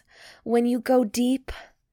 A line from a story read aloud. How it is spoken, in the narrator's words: moans